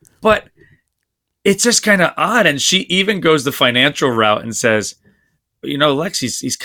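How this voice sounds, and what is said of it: Usual voice. Nothing is said of it.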